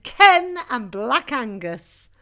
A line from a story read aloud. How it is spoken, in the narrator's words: The gang shouted